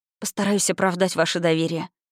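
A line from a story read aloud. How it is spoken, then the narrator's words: Muttered. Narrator (Russian): пробормотала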